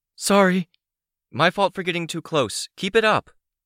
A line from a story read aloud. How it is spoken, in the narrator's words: I called out